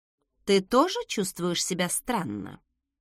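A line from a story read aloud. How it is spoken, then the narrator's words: Quiet question. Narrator (Russian): тихо спросила я у младшего брата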